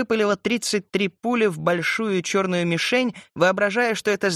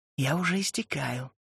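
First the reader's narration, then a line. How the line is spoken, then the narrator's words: Whisper. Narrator (Russian): шепнула она ему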